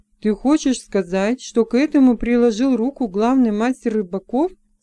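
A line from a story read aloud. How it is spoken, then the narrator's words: Plain. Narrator (Russian): спросил Джексон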